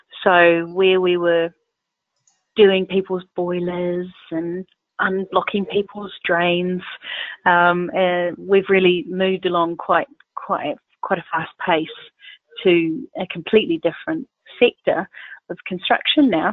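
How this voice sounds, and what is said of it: New Zealand accent. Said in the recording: “There's a slight accent there in your voice ... I think it's more than slight ... you're really holding on to that Southern Hemisphere accent ... I'm originally from New Zealand”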